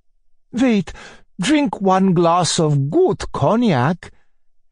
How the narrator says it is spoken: cried Muller

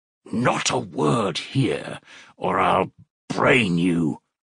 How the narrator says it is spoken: Razumihin whispered furiously

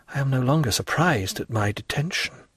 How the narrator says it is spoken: murmured Dantès

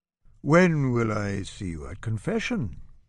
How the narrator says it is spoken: asks

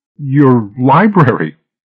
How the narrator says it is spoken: stammered

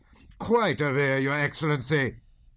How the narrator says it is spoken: suddenly shouted the colonel, turning purple in the face

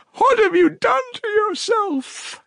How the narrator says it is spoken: she said in despair

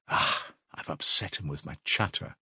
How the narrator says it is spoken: he muttered to himself

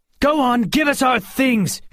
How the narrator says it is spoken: she shouted at the patron

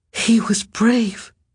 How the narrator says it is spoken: he cried suddenly, aloud but not loud, no more than a whisper

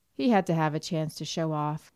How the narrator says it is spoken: said Anthony with a scornful laugh

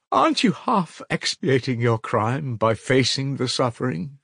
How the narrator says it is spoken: She cried

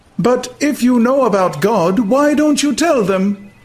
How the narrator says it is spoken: asked the savage indignantly

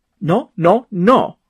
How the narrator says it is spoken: cried Carl

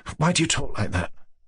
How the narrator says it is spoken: muttered

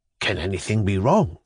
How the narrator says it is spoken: he muttered

